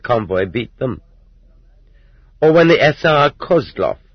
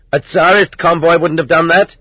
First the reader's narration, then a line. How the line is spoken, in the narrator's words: They yelled out